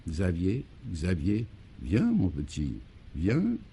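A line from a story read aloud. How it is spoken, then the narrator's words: Very soft calling voice. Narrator (French): le Belluaire, se surpassant, rappela d'une voix très douce maintenant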